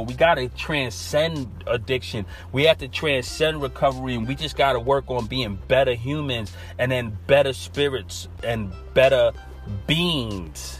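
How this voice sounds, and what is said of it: New York accent. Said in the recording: “I have a straight up New York accent ... naturally I'm from Brooklyn”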